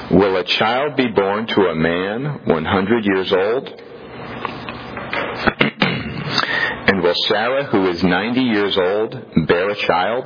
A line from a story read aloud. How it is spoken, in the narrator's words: said in his heart